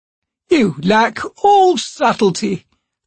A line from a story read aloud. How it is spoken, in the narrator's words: the god said, sighing